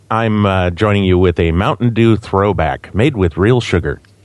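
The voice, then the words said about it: Deep voice, American accent. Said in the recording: “deep-voiced American friend ... the guy with the American accent”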